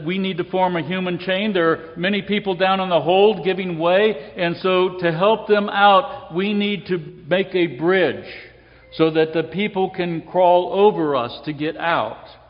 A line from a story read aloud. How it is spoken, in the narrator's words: Parker then called out and said